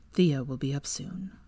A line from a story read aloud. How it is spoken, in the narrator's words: he said quietly